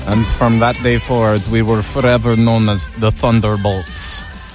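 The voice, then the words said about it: Weak put-on Russian accent. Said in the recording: “I don't do a good Russian accent.”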